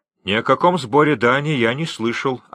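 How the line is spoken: Plain. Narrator (Russian): ответил капитан

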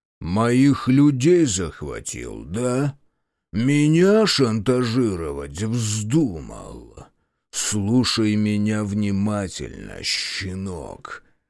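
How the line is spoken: Menacing low growl. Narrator (Russian): Его голос снизился до угрожающего рычания

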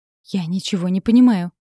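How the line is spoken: Pleading. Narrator (Russian): взмолилась Катерина

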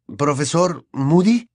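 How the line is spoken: Unsure questioning tone. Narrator (Spanish): preguntó con tono inseguro

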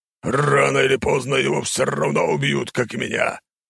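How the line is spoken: Growled. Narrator (Russian): прорычал

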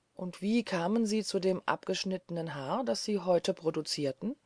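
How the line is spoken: Plain question. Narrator (German): fragte

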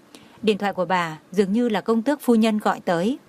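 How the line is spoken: Young woman, smiling. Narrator (Vietnamese): Nữ quản gia trẻ tuổi mỉm cười nói

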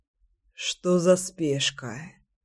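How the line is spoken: Sleepy mumble. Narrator (Russian): сонно пробормотал Кирюша

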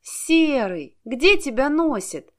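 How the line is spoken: Exclamation. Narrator (Russian): воскликнула она

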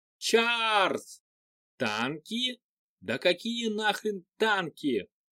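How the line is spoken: Wild yelling while running. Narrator (Russian): бежал сверху и орал диким голосом

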